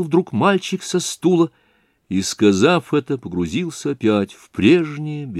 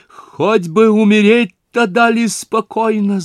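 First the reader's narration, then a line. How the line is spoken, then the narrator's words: Loud shout. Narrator (Russian): закричала на всю толпу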